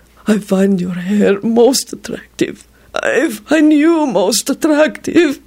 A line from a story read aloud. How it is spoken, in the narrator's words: it whimpered wretchedly